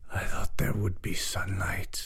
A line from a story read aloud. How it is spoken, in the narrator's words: the Bogus said in a voice that was like the wind whispering through trees